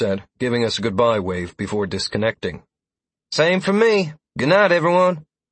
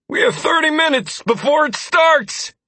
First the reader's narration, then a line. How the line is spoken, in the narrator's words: Peter called out without missing a beat